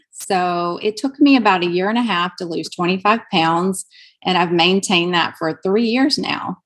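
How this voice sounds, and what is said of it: Southern US Alabama accent. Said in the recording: “I'm from Alabama. That's where my accent comes from.”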